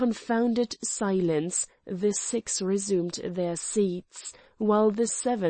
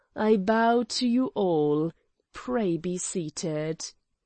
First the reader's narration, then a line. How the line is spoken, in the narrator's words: said slowly